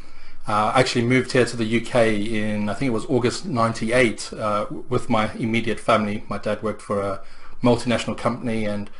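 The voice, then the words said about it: South African accent. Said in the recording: “the accent is slightly different ... the accent is different. I'm originally from South Africa.”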